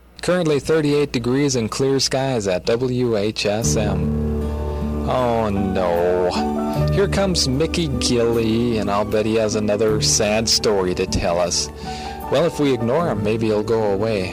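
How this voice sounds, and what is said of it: Wisconsin accent. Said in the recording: “I just love the way your accent. What is that? ... I did have a Wisconsin accent”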